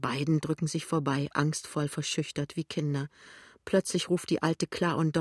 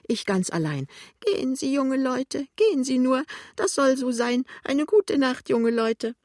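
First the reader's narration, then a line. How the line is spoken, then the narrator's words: Sobbing. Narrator (German): schluchzt Lämmchen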